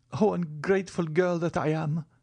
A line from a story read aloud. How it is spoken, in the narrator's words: cried Valentine, sobbing